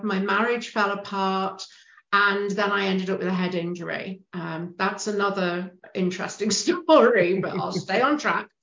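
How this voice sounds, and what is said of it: British accent. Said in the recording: “you can tell from the accent, I'm a Brit.”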